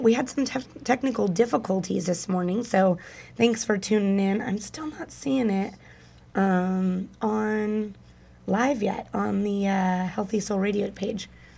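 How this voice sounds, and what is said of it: Husky, half-lost low voice. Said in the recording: “deal with my voice again this morning because it is just halfway there ... sexy voice on ... sexy voice going on. A little Demi Moore action”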